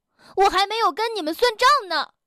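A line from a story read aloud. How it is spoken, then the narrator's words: Shouting. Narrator (Chinese): 跳跳喊道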